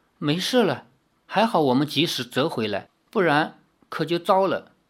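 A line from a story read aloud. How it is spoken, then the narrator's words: Soft gentle. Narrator (Chinese): 赵灵儿柔声地说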